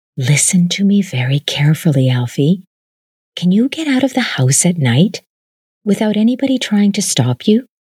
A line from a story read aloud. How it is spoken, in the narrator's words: She whispered